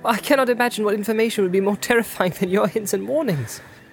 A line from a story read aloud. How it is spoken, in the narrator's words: exclaimed Frodo